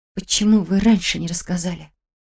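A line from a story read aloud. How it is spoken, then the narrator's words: Faint whispered reply. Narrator (Russian): Только и смогла прошептать я в ответ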